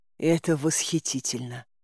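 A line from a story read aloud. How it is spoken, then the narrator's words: Shocked whisper. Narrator (Russian): потрясенно прошептала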